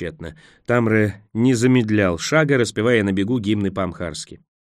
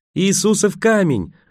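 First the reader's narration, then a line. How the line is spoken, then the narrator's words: Joyful shout. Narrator (Russian): радостно закричал он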